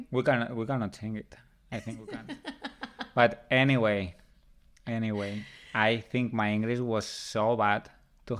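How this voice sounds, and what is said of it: Strong non-native English accent. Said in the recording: “my accent is bad ... But people like your accent. ... Yeah, it's strong”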